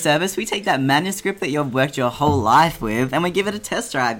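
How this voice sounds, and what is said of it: Cheesy radio announcer voice. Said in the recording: “in your cool radio voice ... all cheesiness aside”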